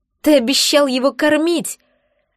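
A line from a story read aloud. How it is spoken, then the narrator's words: Shout. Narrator (Russian): закричала я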